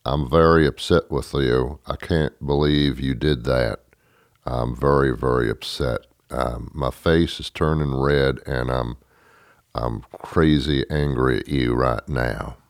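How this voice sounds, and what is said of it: Monotone Matthew McConaughey impression. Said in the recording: “He's very monotone. All his acting parts are very monotone. Here's my impression of Matthew McConaughey getting very upset”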